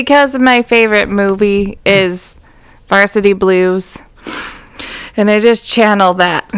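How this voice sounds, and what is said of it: Usual voice. Nothing is said of it.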